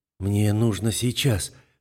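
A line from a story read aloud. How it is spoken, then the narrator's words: Hoarse whisper. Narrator (Russian): хрипло шепчу я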